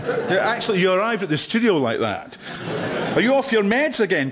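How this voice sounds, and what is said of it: Calm East of Scotland accent. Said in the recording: “having one of Britain's most beloved accents ... the East of Scotland ... As you can hear, my accent is in no way brash or hubristic ... learned but not smug ... Wise and reassuring. Authoritative but comforting.”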